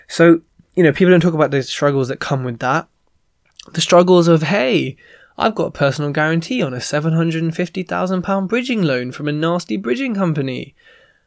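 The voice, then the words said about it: Strained, weak voice, losing it. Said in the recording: “You can probably see in my voice, like, it sounds weird because, again, I'm kind of losing my voice for like the third time this year.”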